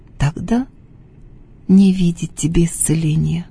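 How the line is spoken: Sad reply. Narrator (Russian): грустно ответила Феврония

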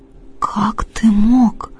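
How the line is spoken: Whisper. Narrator (Russian): прошептала я

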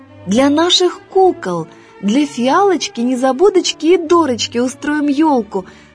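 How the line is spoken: Exclaimed. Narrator (Russian): воскликнула Дина

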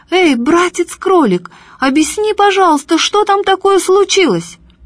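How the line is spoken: Shouting. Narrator (Russian): матушка Медоуз закричала

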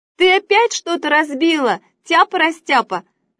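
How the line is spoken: Mother shouting from afar. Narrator (Russian): закричала мама из кухни

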